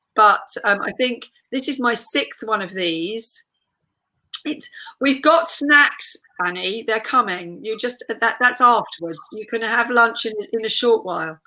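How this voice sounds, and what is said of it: Hoarse, croaky voice. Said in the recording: “you can all probably hear I've got a bit of a croak going on. I lost my voice for a few days”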